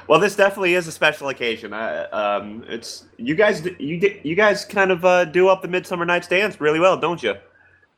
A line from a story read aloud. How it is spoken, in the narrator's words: Randy kind of chuckles a little bit and says